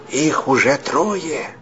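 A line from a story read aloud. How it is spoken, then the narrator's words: Whisper. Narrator (Russian): прошептал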